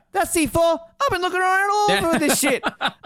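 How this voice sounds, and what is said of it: Chris Tucker impression. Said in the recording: “I'm trying to do a Chris Tucker impersonation ... it's hard not to do the Chris Tucker voice”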